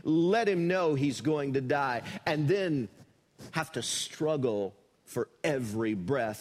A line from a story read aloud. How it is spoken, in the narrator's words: A terminally ill patient sneered